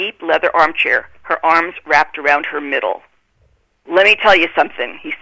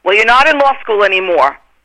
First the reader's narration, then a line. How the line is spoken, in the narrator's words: he bellowed